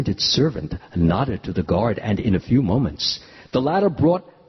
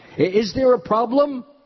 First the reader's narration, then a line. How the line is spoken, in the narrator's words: the king called out to the guard